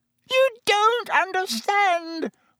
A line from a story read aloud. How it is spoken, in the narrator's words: whined Pettigrew